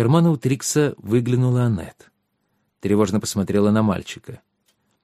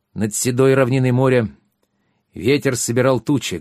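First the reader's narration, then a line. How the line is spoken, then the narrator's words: Loud. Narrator (Russian): громко сказал он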